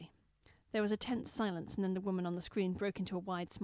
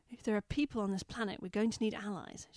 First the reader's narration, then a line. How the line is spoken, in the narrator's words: said tightly